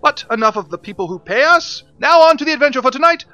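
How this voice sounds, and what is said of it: Odd Elizabethan accent. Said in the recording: “I am talking in an odd Elizabethan accent that just kind of happened”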